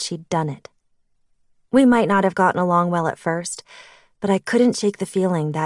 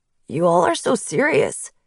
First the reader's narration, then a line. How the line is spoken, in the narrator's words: he chuckled